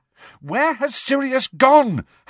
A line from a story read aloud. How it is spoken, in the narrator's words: Harry yelled after the elf